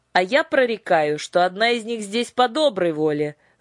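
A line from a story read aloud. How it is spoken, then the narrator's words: Shouting druid. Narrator (Russian): закричал друид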